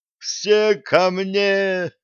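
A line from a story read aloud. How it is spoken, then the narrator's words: Roaring in wild voice. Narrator (Russian): дурным голосом взревел Блад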